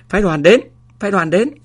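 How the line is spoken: Playful loud shout. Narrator (Vietnamese): có người nghịch ngợm hét lớn

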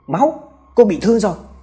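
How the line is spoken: Crying out. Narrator (Vietnamese): Hào la lên

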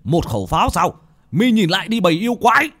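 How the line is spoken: Wounded man's shout. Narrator (Vietnamese): Một vị pháp sư, khắp người đầy máu tươi, vết thương vẫn chảy máu, mà quát lên

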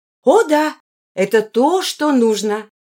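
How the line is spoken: Joyful. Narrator (Russian): Линая радостно сказала

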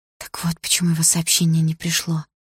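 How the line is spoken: Quiet, young woman. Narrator (Russian): тихо сказала девушка

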